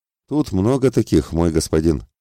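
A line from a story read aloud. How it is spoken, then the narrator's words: Snorting. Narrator (Russian): хмыкнул служитель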